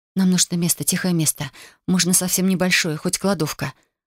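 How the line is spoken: Quick whisper. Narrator (Russian): быстро прошептала я

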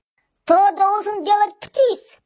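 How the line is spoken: Furious yelling. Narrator (Russian): яростно завопился Каграб

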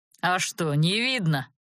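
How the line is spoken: Growling dragon. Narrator (Russian): рыкнул дракон

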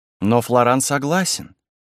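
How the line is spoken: Calm reply. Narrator (Russian): спокойно отвечала Лиза

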